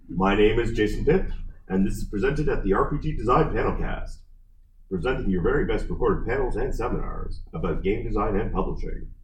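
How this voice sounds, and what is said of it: Announcer-style podcast voice. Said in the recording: “my podcast voice.”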